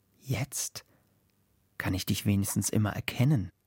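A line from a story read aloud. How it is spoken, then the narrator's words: Wind murmuring. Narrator (German): raunt der Wind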